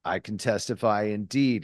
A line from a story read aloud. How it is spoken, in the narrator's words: he said